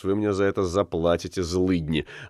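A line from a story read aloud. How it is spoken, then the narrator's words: Muttering under breath. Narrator (Russian): Уллиншпигель пробурчал себе под нос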